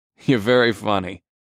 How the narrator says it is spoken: I said in a sarcastic tone

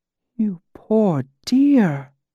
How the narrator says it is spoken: sighed almost too quietly for me to hear

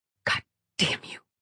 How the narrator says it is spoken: she muttered

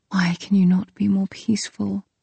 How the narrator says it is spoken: I whispered

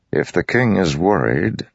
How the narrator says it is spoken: Dalinar said

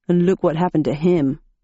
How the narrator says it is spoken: he grunted

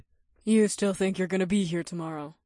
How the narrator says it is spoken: Naomi said with a slight chuckle

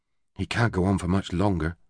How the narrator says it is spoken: she muttered out of the corner of her mouth

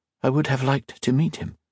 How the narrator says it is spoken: Colette said softly

